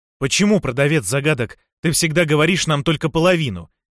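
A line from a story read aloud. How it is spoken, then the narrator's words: Angry, pressing. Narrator (Russian): сердито наступал Фафхард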